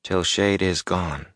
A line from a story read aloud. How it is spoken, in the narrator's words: he mumbled